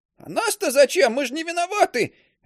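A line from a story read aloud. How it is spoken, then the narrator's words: Shrill cry. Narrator (Russian): визгливо вскрикнул Кисляк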